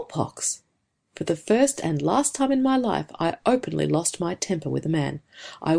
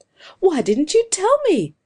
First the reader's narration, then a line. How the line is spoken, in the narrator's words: I cried